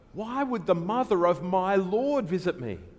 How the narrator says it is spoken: It was Elizabeth who in last week's passage exclaimed when Mary visited her

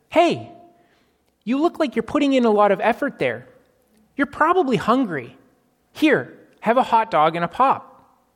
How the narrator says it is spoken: The person yelled out

